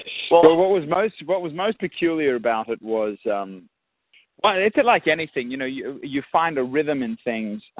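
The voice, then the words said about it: Australian accent. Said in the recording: “I'm just taken back by the by the accent ... Australian accent ... the Aussie accent”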